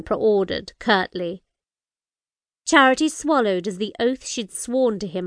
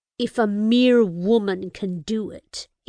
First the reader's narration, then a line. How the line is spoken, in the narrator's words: he growled